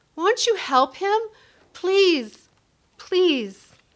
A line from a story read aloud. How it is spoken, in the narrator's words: Tears streamed down my face, and I cried in frustration